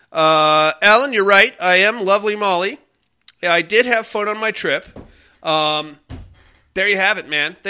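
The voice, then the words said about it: Nasal, congested voice. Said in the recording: “I'm not feeling very well either... my allergies... I sound a little nasally.”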